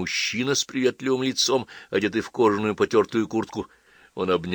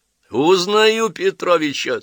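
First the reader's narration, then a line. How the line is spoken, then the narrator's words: Laughing. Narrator (Russian): смеялся Лев Сергеевич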